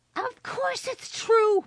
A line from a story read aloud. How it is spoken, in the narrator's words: Maddie shrieked